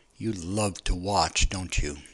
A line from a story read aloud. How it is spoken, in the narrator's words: he growled